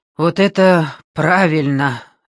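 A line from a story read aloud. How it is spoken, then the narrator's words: Relieved exhale. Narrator (Russian): с облегчением выдохнул Томлинсон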